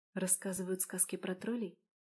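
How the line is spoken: Whisper. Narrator (Russian): прошептала я

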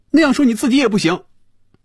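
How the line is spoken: Loud. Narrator (Chinese): 菲比大声说

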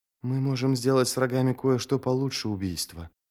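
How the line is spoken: Whisper. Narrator (Russian): прошептал он

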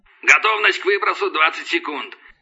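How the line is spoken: Bark over headset. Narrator (Russian): рявкнул в гарнитуре голос падальщика

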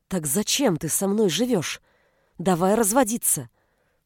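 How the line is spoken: Hissed. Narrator (Russian): прошипела она

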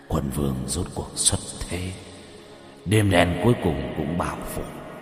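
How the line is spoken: Muttering. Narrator (Vietnamese): lẩm bẩm

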